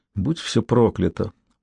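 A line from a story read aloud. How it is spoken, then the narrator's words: Muttered. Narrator (Russian): пробормотала Ким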